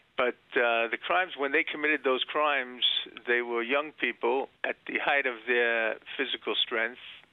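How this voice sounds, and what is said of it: Strong New York accent. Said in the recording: “I detect a strong New York accent there”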